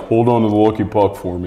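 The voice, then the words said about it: Imitates another person's voice. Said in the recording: “That was such a good impression.”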